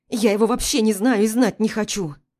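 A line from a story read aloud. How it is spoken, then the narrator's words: Angry hurt snapping. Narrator (Russian): Огрызаю зло, поддавшись обиде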